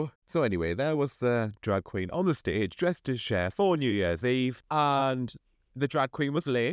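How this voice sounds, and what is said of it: Usual voice. Nothing is said of it.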